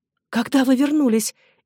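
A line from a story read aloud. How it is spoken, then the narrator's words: Shaky voice. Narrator (Russian): неверным голосом промолвила Эдна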